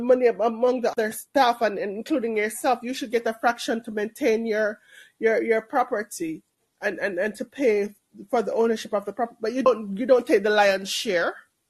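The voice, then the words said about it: Jamaican Canadian accent. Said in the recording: “No, I'm Jamaican ... a Jamaican New York accent ... a Jamaican Canadian accent”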